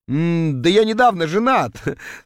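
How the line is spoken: Muttered through laughter. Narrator (Russian): сквозь смех процедил я

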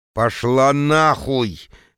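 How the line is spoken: Terrified hiss through teeth. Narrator (Russian): Леденее от ужаса сквозь зубы цежу я

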